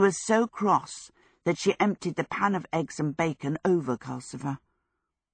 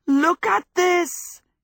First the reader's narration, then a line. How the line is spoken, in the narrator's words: he shouted